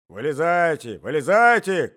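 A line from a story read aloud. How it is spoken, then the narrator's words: Old man shouting, stamping. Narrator (Russian): кричал старик, топая по ковру обеими ногами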